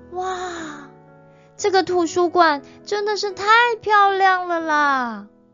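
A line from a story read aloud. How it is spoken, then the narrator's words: Admiring exclamation. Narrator (Chinese): 罗拉忍不住的赞叹说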